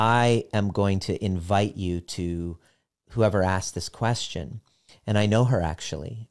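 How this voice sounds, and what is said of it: Usual voice. Nothing is said of it.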